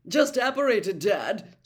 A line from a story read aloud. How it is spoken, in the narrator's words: said Percy loudly